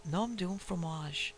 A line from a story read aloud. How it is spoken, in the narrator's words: he murmured softly to himself